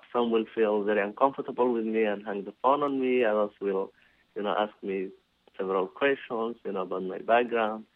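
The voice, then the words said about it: Non-native English accent. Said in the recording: “because of my accent... based on definitely my accent and the way I was pronouncing uh, the English words”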